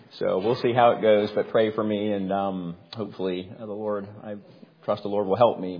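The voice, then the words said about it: Weak, strained voice. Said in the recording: “forgive my voice a little bit this morning, if I'm not as my normal strong voice self ... there may or may not have been some yelling”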